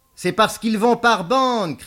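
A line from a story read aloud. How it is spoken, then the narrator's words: Shouted. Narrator (French): cria Beaumasque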